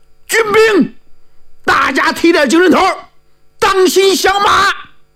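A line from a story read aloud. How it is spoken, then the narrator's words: Shout. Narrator (Chinese): 这一喊，明着是喊给护法场的军兵，你实际上是喊给劫法场的众英雄听的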